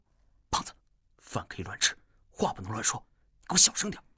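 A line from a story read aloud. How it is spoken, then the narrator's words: Low hurried voice. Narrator (Chinese): 戴沐白……有些匆忙地……压低声音说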